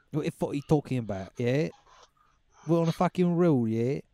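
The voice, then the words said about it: Put-on English accent. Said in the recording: “got that fucking accent down, bro ... How good you are at that accent ... When you hear an English accent”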